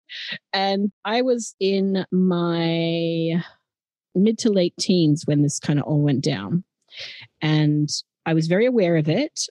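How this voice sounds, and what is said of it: Natural Australian accent. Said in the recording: “talking more in my natural Australian accent”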